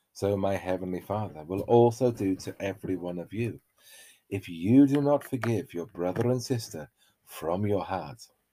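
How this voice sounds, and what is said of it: Scottish-sounding accent. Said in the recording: “It sounded very Scottish, your distressed.”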